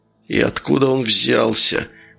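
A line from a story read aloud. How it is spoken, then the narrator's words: Hissed. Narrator (Russian): прошипел Федя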